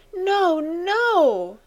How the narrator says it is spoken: screamed Heidi

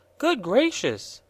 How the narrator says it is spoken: exclaimed Betsy

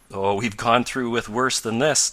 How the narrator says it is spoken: laughed Tom

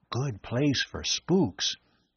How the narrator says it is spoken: Bud whispered jokingly

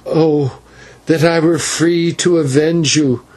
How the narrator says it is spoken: gasped the girl as she strained and tore at the ropes

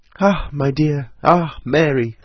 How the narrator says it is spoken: they suddenly exclaimed, and then laughed

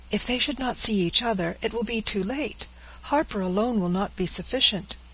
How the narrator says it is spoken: cried Francis in returning terror

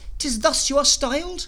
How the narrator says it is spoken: cried the riders

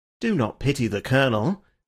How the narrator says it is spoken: said Ratcliffe with a pale sneer

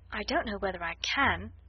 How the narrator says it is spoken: answered Sarah, still in her half-whisper

